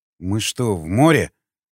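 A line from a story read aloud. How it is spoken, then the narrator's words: Grumbling. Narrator (Russian): проворчал Николай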